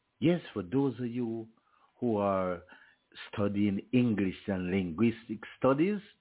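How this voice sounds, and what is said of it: Rural Jamaican accent. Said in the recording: “from out of the bushy part of Jamaica, from the farming community of St. Elizabeth ... Please catch the accent”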